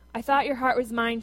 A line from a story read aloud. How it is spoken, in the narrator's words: she said